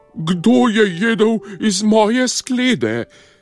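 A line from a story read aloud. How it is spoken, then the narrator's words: Slightly softer roar. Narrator (Slovenian): Mama medvedka je zarjovela samo malo tiše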